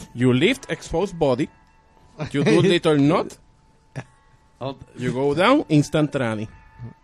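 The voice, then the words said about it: Russian-sounding accent. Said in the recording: “Sounded very Russian ... right there. ... it fluctuates.”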